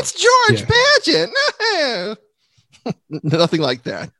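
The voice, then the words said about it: High whistly impression of a woman. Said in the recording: “Why do you sound like that whistle from H.R. Puffin stuff? ... that's my Lucy. That's my Lucy before cigarettes impersonation.”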